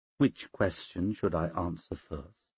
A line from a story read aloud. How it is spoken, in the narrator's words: She said quietly